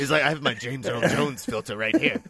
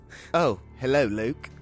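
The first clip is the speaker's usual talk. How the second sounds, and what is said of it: Put-on British accent. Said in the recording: “he talks British”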